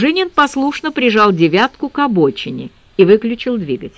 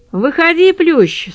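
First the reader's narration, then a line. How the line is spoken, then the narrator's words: Dry, curt. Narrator (Russian): сухо произнесла я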